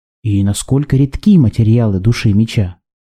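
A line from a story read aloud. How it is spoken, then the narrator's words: Plain. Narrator (Russian): спросил Ян Динтянь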